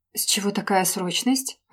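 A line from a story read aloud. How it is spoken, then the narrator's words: Surprised exhale, female friend. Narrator (Russian): удивленно выдохнула подруга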